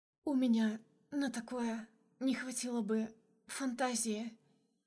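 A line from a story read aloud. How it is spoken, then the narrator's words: Moaning, sobbing. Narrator (Russian): простонала я и всхлипнула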